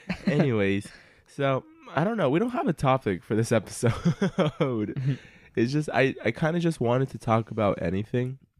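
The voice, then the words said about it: Sick, unusually high-pitched voice. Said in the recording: “I'm sick in this episode. So if my voice sounds like I haven't gone through puberty”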